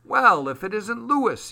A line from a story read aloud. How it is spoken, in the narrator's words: he exclaimed